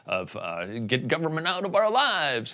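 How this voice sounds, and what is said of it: Failed attempt at Texas accent. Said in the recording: “that's an Indiana accent, not a Texas accent.”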